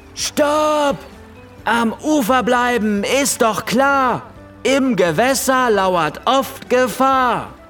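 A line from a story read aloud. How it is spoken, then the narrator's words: Loud chorus. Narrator (German): riefen im Chor so laut wie kleine Löwen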